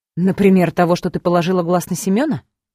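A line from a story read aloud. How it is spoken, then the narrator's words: Ironic snort. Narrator (Russian): Иронично хмыкнула в ответ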